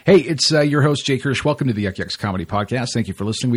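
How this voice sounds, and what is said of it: Usual voice. Nothing is said of it.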